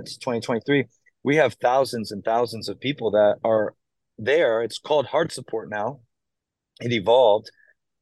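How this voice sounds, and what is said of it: Hoarse, tired voice. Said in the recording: “I'm a little hoarse, a little tired... I know I can hear the hoarseness.”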